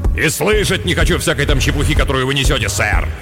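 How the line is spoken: Irritated snap. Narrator (Russian): В раздражении огрызнулся Харплеер, как всегда досадуя на болтовню людей о цвете

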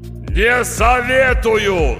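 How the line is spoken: Yelling voice. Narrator (Russian): заорал голос

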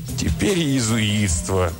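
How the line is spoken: Moaning. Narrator (Russian): простонал Бартоломи

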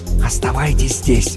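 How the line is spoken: Whispered command. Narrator (Russian): Шепотом приказал чаропевец спутникам

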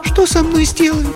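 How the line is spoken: Thin voice despite resolve. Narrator (Russian): спросила она тонким голосом, несмотря на свою решимость

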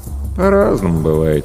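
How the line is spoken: Lazy reply. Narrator (Russian): лениво отозвался Денис

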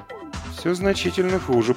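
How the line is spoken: Muttering. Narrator (Russian): пробормотал Ильюшка

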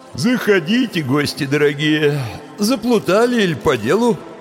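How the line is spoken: Sleepy grumble. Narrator (Russian): Сонно проворчал он

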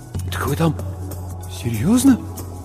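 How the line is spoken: Trembling mumble. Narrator (Russian): Бормочу, а у самого губы дрожат

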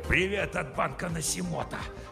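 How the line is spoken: Hissed. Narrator (Russian): Прошипел он

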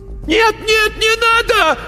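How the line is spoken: Screamed in fear. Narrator (Russian): заорал он

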